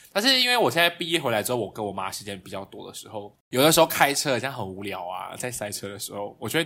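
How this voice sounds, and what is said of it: Usual voice. Nothing is said of it.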